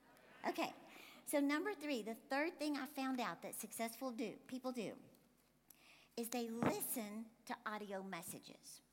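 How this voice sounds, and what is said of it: Speaker's own unusual accent. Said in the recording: “My funny accent”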